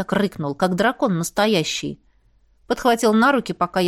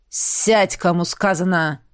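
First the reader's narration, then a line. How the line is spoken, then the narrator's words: Growled command. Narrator (Russian): Рыкнул он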